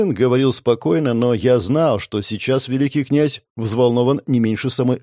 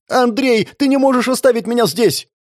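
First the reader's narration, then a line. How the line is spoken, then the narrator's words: Woman screaming. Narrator (Russian): закричала женщина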